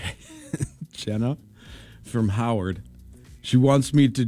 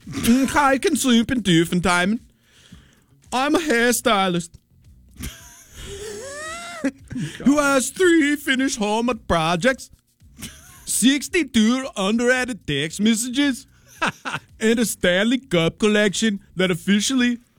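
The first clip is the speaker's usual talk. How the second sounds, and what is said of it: Put-on German accent character voice. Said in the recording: “my Streusel impression. My German guy.”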